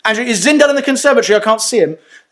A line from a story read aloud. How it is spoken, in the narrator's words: Rachel, my wife, shouts and says